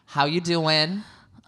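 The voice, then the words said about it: Imperfect put-on New Jersey accent. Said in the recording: “Your Jersey accent needs a little work”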